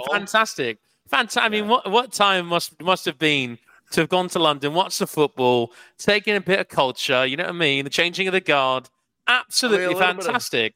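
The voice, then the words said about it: Put-on British accent. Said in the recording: “Who's got a better British accent”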